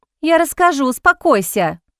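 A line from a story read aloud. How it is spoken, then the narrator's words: Exclamation. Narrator (Russian): воскликнула Изабель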